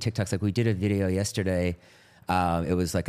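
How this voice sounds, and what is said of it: Usual voice. Nothing is said of it.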